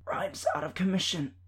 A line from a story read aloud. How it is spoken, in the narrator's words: I said, my voice strangled as Prince did his best to choke me